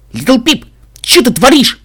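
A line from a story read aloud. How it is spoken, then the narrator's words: Shouted. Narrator (Russian): крикнул он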